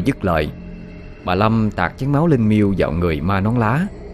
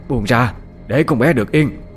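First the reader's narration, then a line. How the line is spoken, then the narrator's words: Old woman shouting. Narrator (Vietnamese): bà ... la lên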